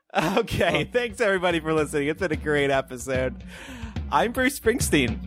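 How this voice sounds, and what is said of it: Jolly radio host voice. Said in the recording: “No, I was trying to do like a jolly radio host.”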